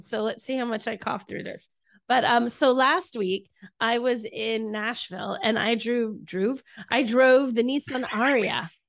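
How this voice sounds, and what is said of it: Sick voice with a cold. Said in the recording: “I sound terrible because I have a cold.”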